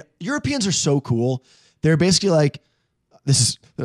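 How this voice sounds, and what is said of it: Usual voice. Nothing is said of it.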